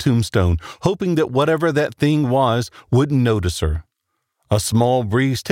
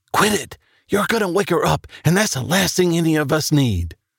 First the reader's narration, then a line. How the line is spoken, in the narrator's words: the angry whisper